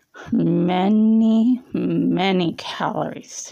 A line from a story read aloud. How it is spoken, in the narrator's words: he slurred